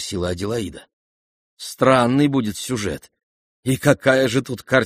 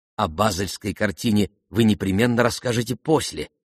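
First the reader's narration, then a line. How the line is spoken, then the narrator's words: Plain. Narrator (Russian): сказала Аделаида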